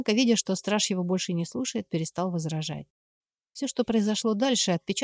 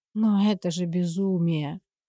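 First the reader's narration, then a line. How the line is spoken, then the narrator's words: Grumbling mutter. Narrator (Russian): который раз буркнул шевалье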